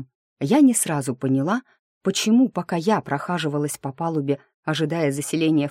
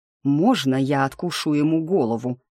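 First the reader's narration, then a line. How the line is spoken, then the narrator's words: Growling. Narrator (Russian): рычал я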